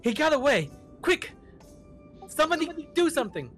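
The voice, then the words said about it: Yelling. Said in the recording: “I'm yelling at the other guys.”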